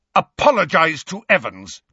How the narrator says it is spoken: James roared at Snape

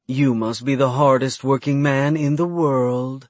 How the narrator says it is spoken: she purred

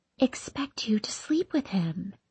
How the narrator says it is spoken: She stops, then whispering, pulling herself closer to me, says

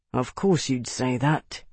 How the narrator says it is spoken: he murmured almost to himself

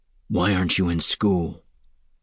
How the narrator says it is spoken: he asked quietly

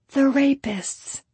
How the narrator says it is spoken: Jesus whispered

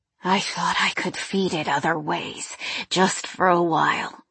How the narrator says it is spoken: he said in that same hoarse whisper

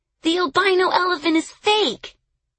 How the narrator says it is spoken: a boy shouted

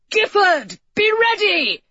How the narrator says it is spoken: Edward came running back to him, shouting

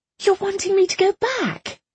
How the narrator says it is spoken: Irene squeaked

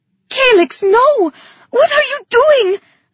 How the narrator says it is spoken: I screamed

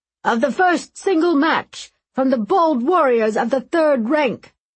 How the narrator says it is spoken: The grand crier, who announced all the events through a horn, shouted

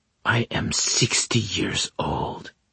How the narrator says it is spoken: she whispered

